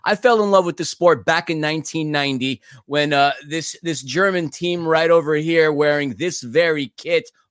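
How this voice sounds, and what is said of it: American accent. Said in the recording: “being from the United States, and as you could tell from my accent, I'm not from Berlin”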